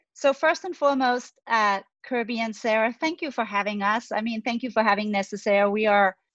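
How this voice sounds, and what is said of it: Danish accent. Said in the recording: “You can detect the accent. I am Scandinavian, from Denmark.”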